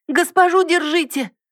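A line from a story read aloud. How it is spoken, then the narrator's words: Frightened shout. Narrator (Russian): Кто-то испуганно закричал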